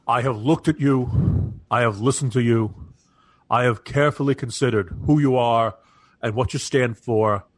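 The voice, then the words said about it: Imitates another person's voice. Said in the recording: “I picture him saying ... that impression”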